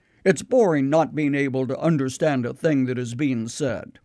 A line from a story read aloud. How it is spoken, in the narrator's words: they would grumble